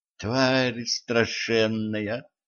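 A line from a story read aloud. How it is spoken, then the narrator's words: Whisper. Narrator (Russian): прошептала Кэтран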